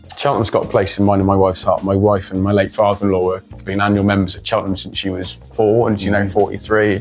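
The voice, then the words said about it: Slight Bristol West Country accent. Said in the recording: “you sound like you've got a bit of West Coast accent there... West Coast, I like that. Yeah, there's some Bristol in there for sure.”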